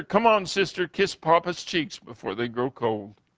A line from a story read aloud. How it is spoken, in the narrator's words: sobbed and said to his sister